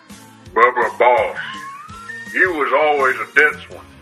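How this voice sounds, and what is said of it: Impression of Andre. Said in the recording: “my Andre impression”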